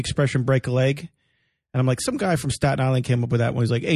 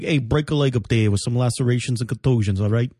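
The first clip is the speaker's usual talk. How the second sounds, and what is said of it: Staten Island accent voice. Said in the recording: “I do like a Staten Island-y voice ... That accent.”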